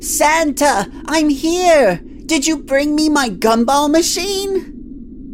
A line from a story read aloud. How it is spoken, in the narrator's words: yelled out in a cheery voice